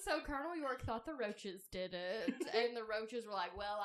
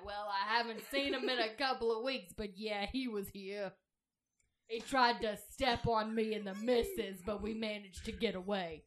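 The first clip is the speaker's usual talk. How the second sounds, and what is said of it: Thick New York accent. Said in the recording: “Why does this roach have a really thick New York accent?”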